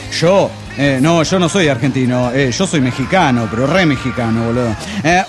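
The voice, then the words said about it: Strong Argentine accent. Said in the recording (Spanish): “todavía con el acento argentino muy marcado”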